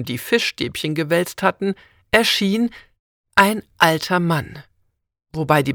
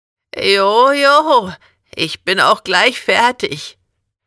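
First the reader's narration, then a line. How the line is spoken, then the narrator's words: Toothless croaking. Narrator (German): kam es krächzend aus seinem zahnlosen Mund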